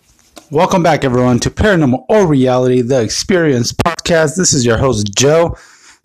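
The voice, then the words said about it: Raspy voice. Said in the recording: “I've been a little bit under the weather. Uh, my voice has been a little raspy,”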